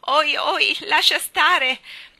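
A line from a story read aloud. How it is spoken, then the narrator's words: Shouted. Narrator (Italian): gridò la povera Anna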